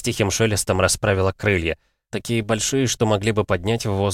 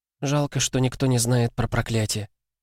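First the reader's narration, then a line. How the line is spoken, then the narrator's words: Sighing. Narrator (Russian): вздохнула она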